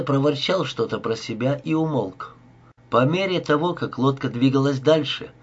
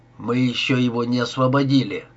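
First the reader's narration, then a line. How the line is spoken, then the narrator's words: Grumble. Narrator (Russian): буркнул Бит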